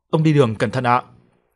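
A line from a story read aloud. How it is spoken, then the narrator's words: Child shouting loudly. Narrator (Vietnamese): cháu của bà lão hét to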